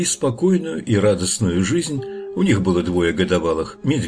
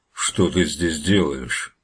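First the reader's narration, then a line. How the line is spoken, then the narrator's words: Menacing question, bear. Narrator (Russian): грозно спросил медведь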